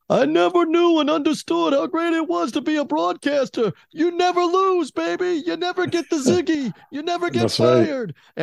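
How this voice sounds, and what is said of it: Dickie V impression. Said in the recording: “I'll even do a quick Dickie V impersonation.”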